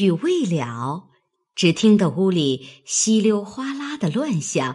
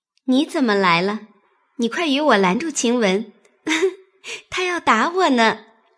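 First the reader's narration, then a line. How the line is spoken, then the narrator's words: Smiling. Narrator (Chinese): 含笑站着，说道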